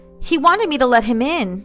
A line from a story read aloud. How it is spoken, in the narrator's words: cried